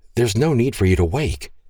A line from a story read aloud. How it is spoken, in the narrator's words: breathlessly commented